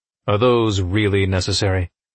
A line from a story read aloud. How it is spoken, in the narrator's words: he asked